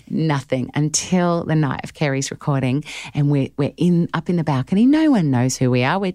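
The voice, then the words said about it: Australian accent. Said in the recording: “you're Australian by the sound of your accent”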